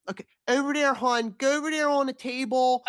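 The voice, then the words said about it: Heavy nasal, deeper Maryland accent. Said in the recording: “people who live in Essex ... they have the really, it's like hard care ... a Maryland accent ... that other kind of nasal, deeper, over there ... that's a tough one to do. You got it, girl.”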